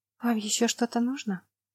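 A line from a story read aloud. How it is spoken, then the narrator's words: Quiet question. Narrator (Russian): тихо спросила Лана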